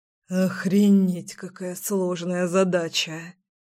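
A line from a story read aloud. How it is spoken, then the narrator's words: Serious exhale. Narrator (Russian): Вполне серьезно выдохнул мой сильный и невероятно нежный парень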